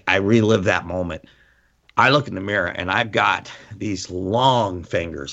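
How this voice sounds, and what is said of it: Tearful, emotional voice. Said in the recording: “I'm getting teary eyed.”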